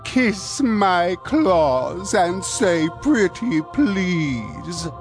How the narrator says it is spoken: he taunted

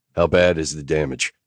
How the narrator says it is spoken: I asked

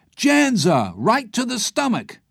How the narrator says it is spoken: Carter's voice cried out

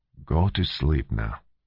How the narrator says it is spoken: said gently

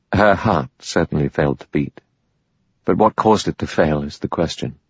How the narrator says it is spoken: Armstrong said dryly

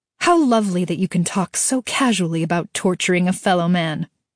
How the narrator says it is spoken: she snapped

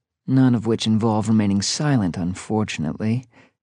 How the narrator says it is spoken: Tia muttered

